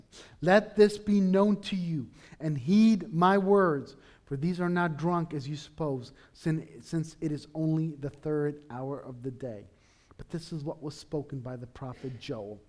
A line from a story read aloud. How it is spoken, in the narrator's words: Peter raised his voice and said to the men of Judea and all who dwell in Jerusalem